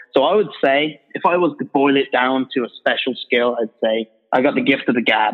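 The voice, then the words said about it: British accent. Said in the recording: “that's the British guy from Orbis. I think the accent helps me.”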